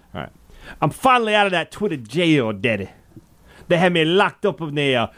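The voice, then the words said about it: Imitates another person's voice. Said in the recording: “my American Dream impression”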